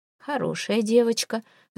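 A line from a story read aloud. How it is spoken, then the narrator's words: Sighing. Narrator (Russian): вздохнув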